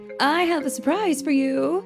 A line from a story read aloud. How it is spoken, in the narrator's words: announced excitedly